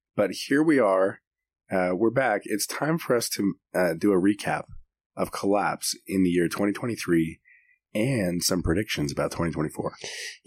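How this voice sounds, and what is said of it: Sick, rough-sounding voice. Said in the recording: “the condition that my voice is in right now. ... You sound awful. ... That you're sick again. ... my voice sounds terrible”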